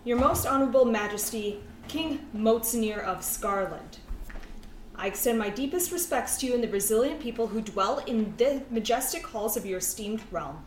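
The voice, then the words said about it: Speaks in a different character voice. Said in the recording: “begin to speak in a different voice”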